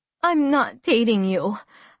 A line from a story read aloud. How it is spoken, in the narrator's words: I said feebly